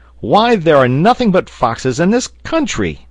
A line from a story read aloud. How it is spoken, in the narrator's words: cried Pencroft